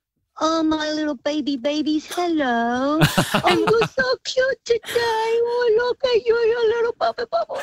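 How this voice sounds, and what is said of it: Baby voice. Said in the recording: “talk to us in a baby voice”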